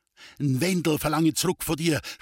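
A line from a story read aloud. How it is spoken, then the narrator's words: Shouting. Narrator (German): schrie Friedel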